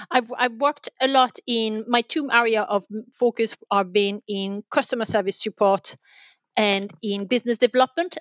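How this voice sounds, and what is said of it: French accent in English. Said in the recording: “I'm originally French... The French accent is still there. It's my stamp mark”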